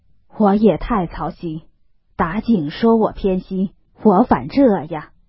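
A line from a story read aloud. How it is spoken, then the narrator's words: Sighing. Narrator (Chinese): 贾母 叹道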